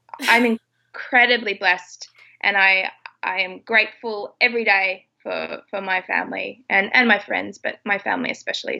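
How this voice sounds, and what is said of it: Teary, emotional voice. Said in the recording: “I'm getting a bit teary”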